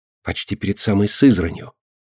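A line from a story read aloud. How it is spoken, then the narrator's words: Whispered prompt. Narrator (Russian): шепотом подсказывает Алина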